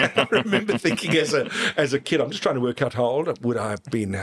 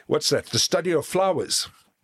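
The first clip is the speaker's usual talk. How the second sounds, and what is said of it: Broad South African accent. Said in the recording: “in a very broad South African accent”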